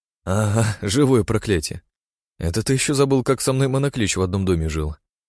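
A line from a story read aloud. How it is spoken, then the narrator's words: Laughing. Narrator (Russian): рассмеялся я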